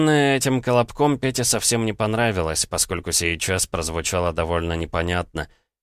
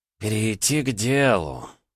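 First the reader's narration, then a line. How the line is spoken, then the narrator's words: Drawled. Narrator (Russian): протянул Юрас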